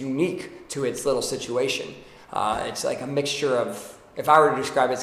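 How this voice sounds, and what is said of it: Usual voice. Nothing is said of it.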